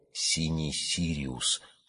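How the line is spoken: Child's hopeful whisper. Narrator (Russian): шепотом сказал мальчик, и в нем шевельнулось предчувствие близкой радости

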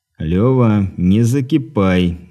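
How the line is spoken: Calm. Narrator (Russian): спокойно произнес Дмитрий

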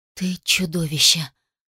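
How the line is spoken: Icy cold voice. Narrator (Russian): произнесла ледяным голосом

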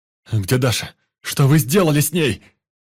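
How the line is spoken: Shouting. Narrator (Russian): кричал Никита

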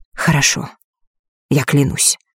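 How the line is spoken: Quiet but firm. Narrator (Russian): тихо, но твердо сказала Елена

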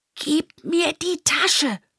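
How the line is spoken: Soft whisper in ear. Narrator (German): flüstert leise ins Ohr

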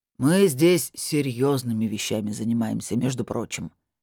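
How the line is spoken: Displeased deep voice. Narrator (Russian): недовольно пробасил маг

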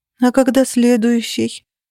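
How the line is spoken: Nervous moan. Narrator (Russian): простонала я, нервно

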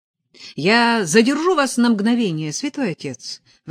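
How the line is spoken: Exclamation. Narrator (Russian): воскликнул он

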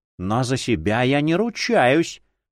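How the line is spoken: Menacing reply. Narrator (Russian): грозно ответила имперская ищейка

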